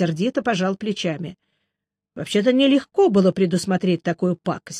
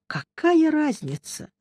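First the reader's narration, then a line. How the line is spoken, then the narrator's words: Tired sigh. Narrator (Russian): устало вздохнул я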